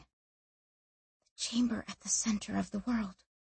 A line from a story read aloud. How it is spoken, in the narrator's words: she whispered